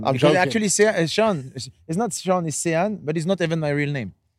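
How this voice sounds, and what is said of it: French accent. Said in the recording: “God, I love the French accent.”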